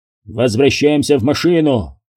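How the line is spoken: Barked. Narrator (Russian): рявкнул Кендрикс

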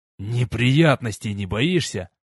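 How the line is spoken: Near hiss, officer. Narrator (Russian): почти прошипел офицер

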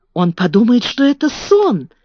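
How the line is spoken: Exclaimed. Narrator (Russian): воскликнула Мэри

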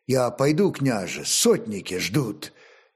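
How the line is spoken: Quiet reminder to self. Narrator (Russian): негромко напомнила себе Ольгерд

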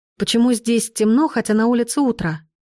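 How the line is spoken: Plain. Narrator (Russian): спросила я

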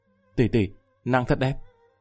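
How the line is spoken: Dazed whispering murmur. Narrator (Vietnamese): Lâm Văn Vinh ngẩn ngơ, thì thào lẩm bẩm

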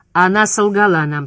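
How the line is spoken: Plain. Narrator (Russian): сказал Ребус

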